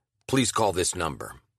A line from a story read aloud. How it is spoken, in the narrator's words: said in an altered tone